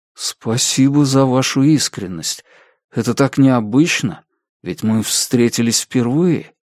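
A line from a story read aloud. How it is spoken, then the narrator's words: Timid, surprised man. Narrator (Russian): робко проговорил мужчина, удивленный неожиданным признанием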